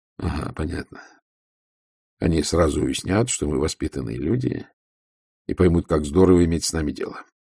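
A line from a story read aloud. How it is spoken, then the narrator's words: Gloomy. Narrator (Russian): мрачно сказал Ваймс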